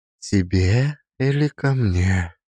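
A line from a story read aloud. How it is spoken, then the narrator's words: Whisper. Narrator (Russian): прошептала она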